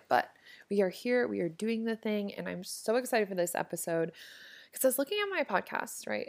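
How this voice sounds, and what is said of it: Scratchy, rough voice. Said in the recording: “my throat is kind of scratchy, so if I sound super weird, that is why”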